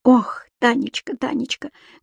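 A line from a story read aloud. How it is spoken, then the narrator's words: Fervent whisper. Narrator (Russian): горячо прошептала Юлия Николаевна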